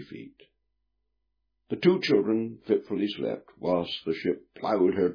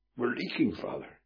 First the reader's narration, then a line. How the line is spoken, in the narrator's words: gasped